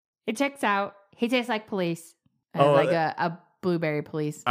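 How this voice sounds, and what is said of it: Cartoon character voice. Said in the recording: “That sounded like an Adventure Time character.”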